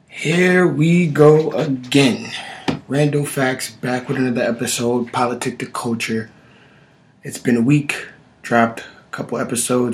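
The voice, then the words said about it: Voice sounds a bit sick. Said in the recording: “My voice is a little under the weather”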